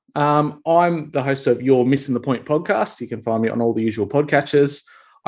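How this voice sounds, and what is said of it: Speaks with a noticeable accent. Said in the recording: “For those of you who may not get that with the accent”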